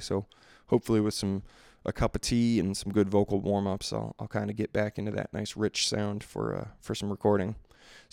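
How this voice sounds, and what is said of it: Slightly worn, run-down voice. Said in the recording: “my voice is a little run down from recent gigs”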